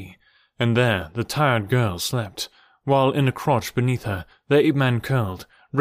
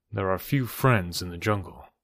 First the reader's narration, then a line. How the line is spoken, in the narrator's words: he remarked dryly